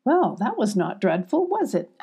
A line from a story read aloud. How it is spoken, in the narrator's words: asked Sylvie, catching her breath, giggling